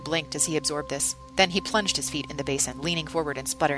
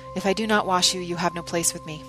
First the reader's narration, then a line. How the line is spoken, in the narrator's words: said wearily